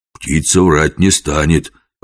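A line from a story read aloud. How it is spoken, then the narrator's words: Timid. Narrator (Russian): робко промолвил жихарь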